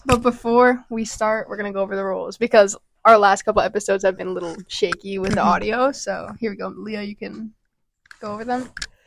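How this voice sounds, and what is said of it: Hoarse, partly lost voice. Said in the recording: “my voice is a little gone.”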